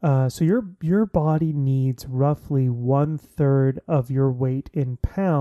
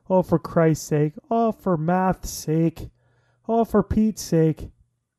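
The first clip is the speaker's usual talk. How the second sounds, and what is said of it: Deliberately bad put-on Irish accent. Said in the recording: “it sounded like an Irish curse ... I do a terrible Irish accent”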